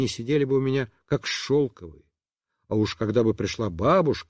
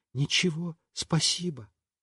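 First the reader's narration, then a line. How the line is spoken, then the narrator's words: Quiet speech. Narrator (Russian): сказала тоже тихонько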